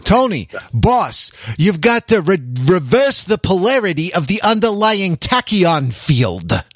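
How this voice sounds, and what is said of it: Christopher Walken impression. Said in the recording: “Was that Christopher Walken guest starring in The Sopranos? That's pretty good.”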